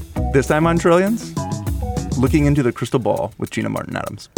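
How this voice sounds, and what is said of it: Usual voice. Nothing is said of it.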